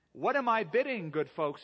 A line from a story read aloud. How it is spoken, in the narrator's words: he cried